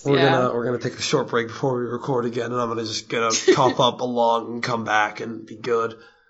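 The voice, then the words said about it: Strained, nearly lost voice. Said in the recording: “My voice is somehow not completely gone. ... your voice held out. I hope you have some water or something over there to recover after this.”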